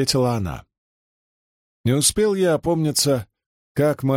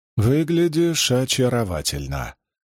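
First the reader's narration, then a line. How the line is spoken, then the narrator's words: Purring. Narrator (Russian): промурлыкала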